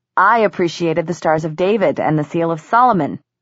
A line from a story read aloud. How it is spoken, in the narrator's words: Simon added dryly